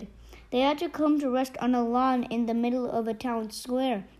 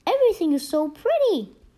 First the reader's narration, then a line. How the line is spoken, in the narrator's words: Jessica exclaimed